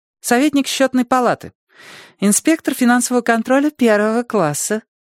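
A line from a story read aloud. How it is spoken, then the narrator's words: Sugary little voice. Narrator (Russian): уточнила она слащавым голоском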